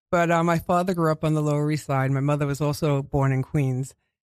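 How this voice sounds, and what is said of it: New York Queens accent. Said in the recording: “I've been told I have a Queens accent. ... This is what Queens people speak like.”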